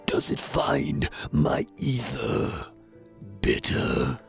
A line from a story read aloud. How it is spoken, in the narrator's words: He growled